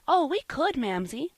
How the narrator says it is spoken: said Polly, eagerly

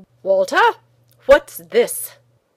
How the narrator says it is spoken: he said sternly

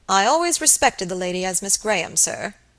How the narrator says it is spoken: he said

